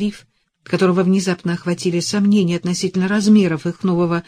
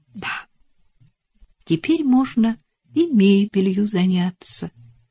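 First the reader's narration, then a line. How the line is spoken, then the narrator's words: Soft. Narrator (Russian): мягко произнесла она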